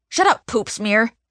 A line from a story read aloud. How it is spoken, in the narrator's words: Scotty snaps back at me